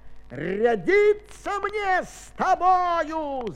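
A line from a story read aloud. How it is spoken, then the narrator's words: Shout. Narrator (Russian): закричал он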